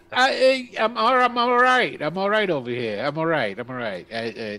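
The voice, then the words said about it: Character voice with an accent. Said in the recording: “Listen to his accent. That's so cool.”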